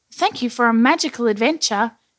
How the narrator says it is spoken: he said happily

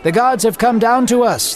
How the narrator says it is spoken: they shouted

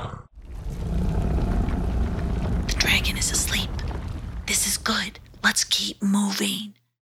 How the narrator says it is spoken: whispered Hong

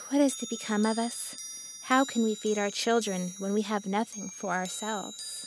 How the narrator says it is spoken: worrying about his problems, he sighed and said to his wife

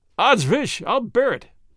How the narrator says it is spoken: said Sir Andrew with a merry laugh

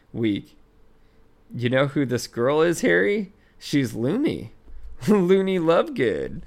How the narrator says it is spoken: said Ron, still giggling

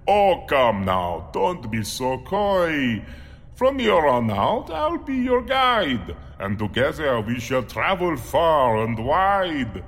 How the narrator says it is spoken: The man chuckled, then said

